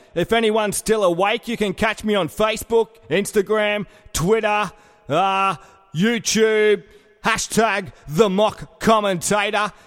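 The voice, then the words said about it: Strong, hard-to-understand accent. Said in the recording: “if you can understand my stupid fucking accent ... I know how you feel about uh, stupid accents”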